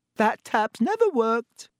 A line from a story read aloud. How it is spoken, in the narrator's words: said Myrtle brightly